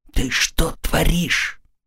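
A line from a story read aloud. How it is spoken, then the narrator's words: Whispering. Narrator (Russian): Мэгги прошептала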